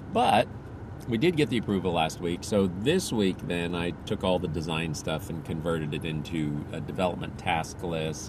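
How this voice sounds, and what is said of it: Slightly sore, strained voice. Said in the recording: “my voice is a little sore”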